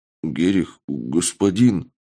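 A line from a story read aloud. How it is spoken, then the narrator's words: Pitiful forced words. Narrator (Russian): Жалко выдавил из себя разбойник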